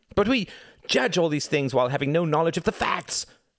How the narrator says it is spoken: cried Reginald

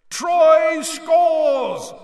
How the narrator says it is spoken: roared Bagman

